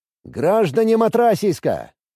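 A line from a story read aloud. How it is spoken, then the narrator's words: Loud public address. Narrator (Russian): Начал я громко, чтобы все слышали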